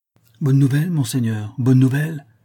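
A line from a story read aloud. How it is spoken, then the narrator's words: Exclaimed. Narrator (French): s'écria le squire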